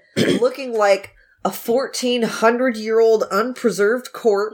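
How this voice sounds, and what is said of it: Usual voice. Nothing is said of it.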